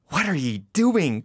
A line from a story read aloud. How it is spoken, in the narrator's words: cried Manfred wrathfully